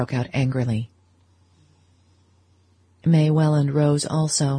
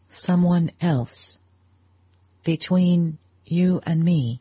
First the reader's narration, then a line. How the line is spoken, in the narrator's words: He echoed her words slowly, as though they were only half intelligible